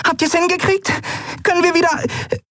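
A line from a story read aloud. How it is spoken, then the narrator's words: Squeaky female voice. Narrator (German): piepste sie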